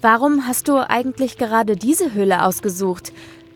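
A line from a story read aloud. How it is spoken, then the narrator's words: Plain question. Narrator (German): fragte Sarah ihn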